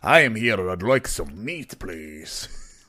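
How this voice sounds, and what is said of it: Deep put-on Scottish accent. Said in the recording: “Maybe I should have went with a Scottish accent for this man. Just a deep Scottish”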